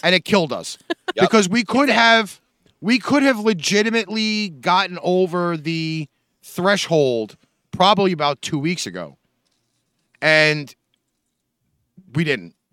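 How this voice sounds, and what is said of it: New York accent. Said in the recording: “Apparently, I have the coolest New York accent.”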